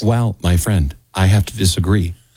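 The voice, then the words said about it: Low, calm imitated voice. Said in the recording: “this impersonation ... I take my own voice. ... Because you got a low voice too. ... I just try to get really calm. And talk to people directly.”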